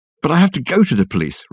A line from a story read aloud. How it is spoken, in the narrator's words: Richard exclaimed